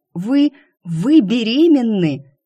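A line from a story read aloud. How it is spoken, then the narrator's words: Near cry of surprise. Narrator (Russian): едва не вскрикнула я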